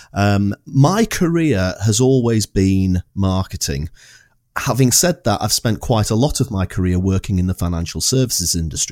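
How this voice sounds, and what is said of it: Non-Scottish accent. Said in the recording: “as you can tell from the accent, I'm not from Scotland”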